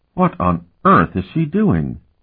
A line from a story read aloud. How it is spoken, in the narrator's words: she exclaimed